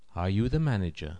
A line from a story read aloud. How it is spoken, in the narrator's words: she asks, softly